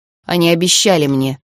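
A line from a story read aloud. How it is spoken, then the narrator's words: Old man mumbling. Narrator (Russian): пробормотал дядюшка Майлз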